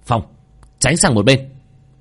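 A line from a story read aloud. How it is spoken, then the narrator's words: Shout from behind. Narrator (Vietnamese): đằng sau lại có tiếng quát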